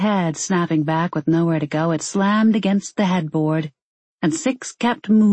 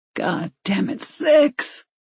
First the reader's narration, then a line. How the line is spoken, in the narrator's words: he groaned